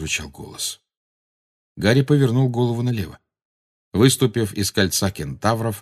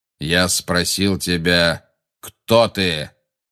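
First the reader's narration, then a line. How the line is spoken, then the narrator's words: Rough repetition. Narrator (Russian): грубо повторил Магориан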